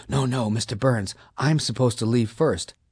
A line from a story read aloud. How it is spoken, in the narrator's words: she whispered